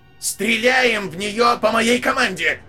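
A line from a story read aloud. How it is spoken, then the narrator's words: Leader shouting out. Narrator (Russian): выкрикнул лидер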